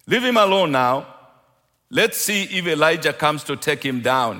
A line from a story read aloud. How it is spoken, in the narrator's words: said